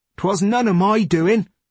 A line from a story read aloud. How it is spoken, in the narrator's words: Nick shouted